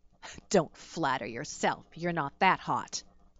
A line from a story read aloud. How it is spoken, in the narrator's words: he snorted